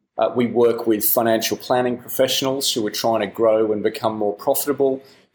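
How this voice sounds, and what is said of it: Australian accent. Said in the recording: “I'm an Australian, you might hear that in the accent”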